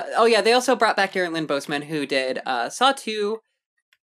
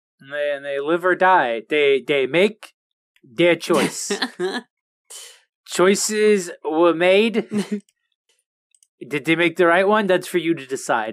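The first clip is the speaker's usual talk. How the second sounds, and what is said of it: Bernie Sanders impression. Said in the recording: “I'm doing a Bernie Sanders voice for this.”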